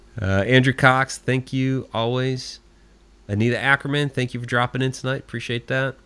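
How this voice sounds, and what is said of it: Hoarse, fading voice. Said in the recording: “I'm losing my voice, I know.”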